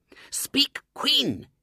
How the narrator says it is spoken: hissed Bluebell desperately

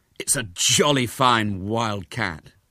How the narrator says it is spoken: said again

